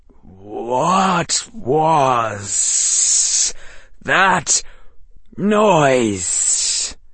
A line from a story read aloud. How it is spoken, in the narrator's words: the hiss said